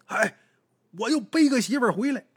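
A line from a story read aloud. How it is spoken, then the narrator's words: Shouting. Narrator (Chinese): 对屋里边自己媳妇就喊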